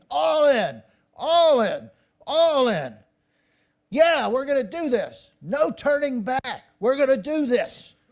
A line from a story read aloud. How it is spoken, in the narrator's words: screaming